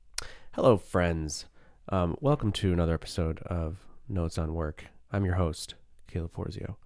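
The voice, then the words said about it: Low, groggy morning voice. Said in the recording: “my voice is low. It's morning voice. ... this is first thing in the morning”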